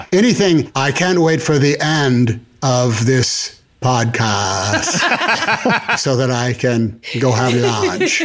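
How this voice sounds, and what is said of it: Katharine Hepburn and FDR-style speech. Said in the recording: “some Katharine Hepburn and some Franklin D. Roosevelt”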